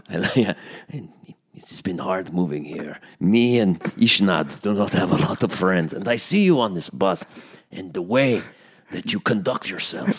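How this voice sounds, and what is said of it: Put-on Russian accent. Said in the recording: “It's a great Russian accent.”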